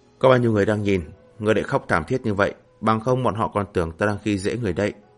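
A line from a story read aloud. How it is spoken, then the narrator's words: Gentle speech. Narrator (Vietnamese): nhu hòa nói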